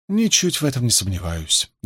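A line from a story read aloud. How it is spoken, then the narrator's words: Good-natured purr. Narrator (Russian): добродушно промурлыкала Илэйн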